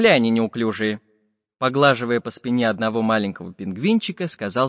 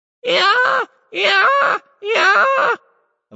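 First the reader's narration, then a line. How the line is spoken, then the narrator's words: Sudden bird shout, close. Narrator (Russian): вдруг закричала одна из птиц прямо над ухом у шпиона дырки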